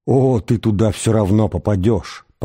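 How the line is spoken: Tearful mutter. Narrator (Russian): пробормотал Аграджак со слезами в голосе

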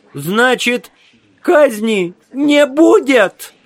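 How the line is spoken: Squeaky, plaintive voice. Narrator (Russian): спросил один из членов суда писклявым жалобным голосом

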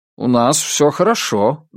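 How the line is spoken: Friendly but somewhat confused. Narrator (Russian): дружелюбно, но несколько растерянно ответил Флойд

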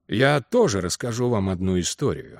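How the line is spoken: Deep voice. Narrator (Russian): сказал он густым голосом

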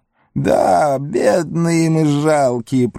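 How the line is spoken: Whimpering. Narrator (Russian): проскулил он

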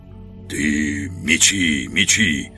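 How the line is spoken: Hoarse. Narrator (Russian): хрипло сказал Жихарь

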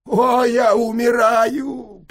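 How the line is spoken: Moaning. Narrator (Russian): простонал я

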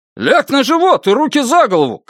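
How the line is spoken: Policeman shouting command. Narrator (Russian): крикнул первый полицейский

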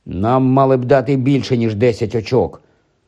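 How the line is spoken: Displeased grumble. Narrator (Ukrainian): невдоволено буркнув Рон

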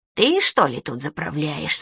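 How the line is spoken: Sharp, squeaky small voice. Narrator (Russian): спросил этот синий коротышка резким писклявым голосом

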